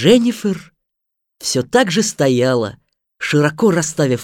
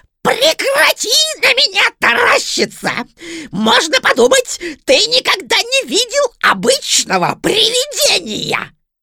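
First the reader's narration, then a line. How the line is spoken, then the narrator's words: Nasty thin squeal. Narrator (Russian): Противным тоненьким голоском заверещал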